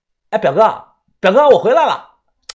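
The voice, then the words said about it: Loud shouting call. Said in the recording (Chinese): “小声点……别大喊大叫的”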